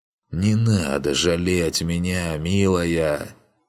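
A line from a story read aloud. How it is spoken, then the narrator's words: Voiceless hoarse croak. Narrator (Russian): прохрипел Ригарди и не услышал своего голоса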